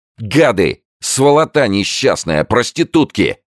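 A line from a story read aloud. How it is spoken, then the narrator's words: Angry yelling. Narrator (Russian): орал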